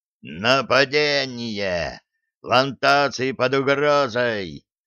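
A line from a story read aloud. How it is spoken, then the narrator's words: Giant's growl. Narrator (Russian): рычал гигантский клубень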